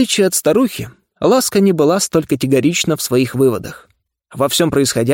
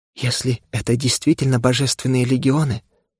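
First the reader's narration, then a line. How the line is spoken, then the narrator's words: Whispered reply. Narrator (Russian): прошептала она в ответ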